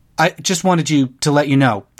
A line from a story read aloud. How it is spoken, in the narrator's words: the senator stammered